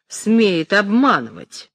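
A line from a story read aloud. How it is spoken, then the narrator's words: Sarcastic woman. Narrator (Russian): сказала язвительно высокая женщина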